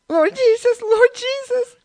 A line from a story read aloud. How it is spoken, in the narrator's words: cried Mrs